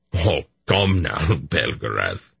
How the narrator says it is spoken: Dernick scoffed

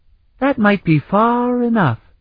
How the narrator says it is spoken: he said in a piping, childish voice

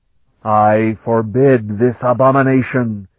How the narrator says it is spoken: the great voice roared

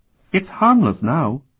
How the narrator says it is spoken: told him calmly

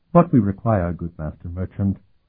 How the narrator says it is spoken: Sophronia said smoothly

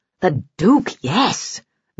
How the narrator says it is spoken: growled the Pliuni captain

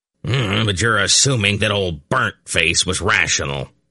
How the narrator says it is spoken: Belden growled

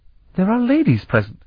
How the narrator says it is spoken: Thevier said sharply

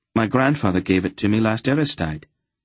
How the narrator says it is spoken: Garion answered

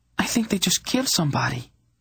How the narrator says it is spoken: Tenedra said in a quavering voice

